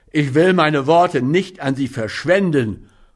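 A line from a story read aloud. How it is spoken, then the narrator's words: Roaring. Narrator (German): brüllte er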